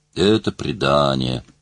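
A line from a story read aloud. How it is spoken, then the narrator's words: Muttering. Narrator (Russian): бормотал ангел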